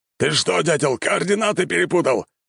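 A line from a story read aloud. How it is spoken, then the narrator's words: Surprised shout. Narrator (Russian): прокричал он, заметив удивленных не меньше него портальщиков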